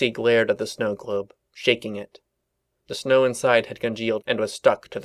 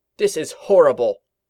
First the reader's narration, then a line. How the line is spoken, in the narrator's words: she cried